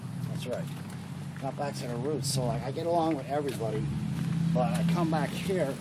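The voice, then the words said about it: Schuylkill County Pennsylvania accent. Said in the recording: “Schuylkill County is where Skooks. But, like, I'm comfortable because they speak my lingo with, like, my same accent.”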